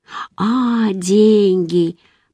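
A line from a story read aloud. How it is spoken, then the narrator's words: Slow. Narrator (Russian): произнес он медленно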